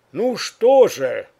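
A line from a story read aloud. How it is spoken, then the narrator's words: Loud. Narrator (Russian): громко произнес он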